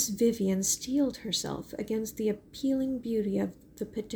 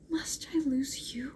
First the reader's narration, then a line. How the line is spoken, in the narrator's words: whispered Mary